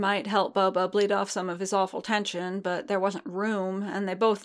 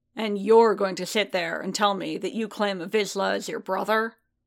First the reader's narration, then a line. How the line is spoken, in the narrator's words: Boba continued, his voice a low growl